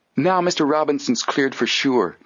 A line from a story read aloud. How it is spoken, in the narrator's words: Joe exclaimed